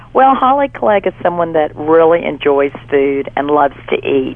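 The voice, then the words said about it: Congested voice with sniffles. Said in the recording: “has a little bit of a cold ... forgive her sniffles ... just my sexy voice”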